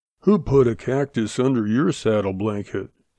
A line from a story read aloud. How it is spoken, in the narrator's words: the sheriff muttered sullenly